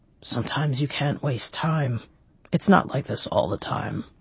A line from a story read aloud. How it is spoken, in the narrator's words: Croker grunted